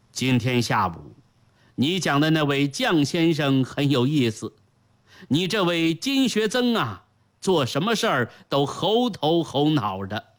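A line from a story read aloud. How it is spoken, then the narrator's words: Cheerful, amused. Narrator (Chinese): 张居正 笑模笑样 说道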